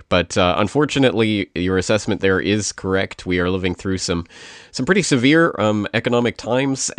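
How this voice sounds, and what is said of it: Congested voice from a cold. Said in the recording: “I have a little bit of a cold, so I might sound a bit different today.”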